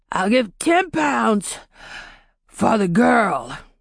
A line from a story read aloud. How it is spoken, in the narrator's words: said, wheezing between his words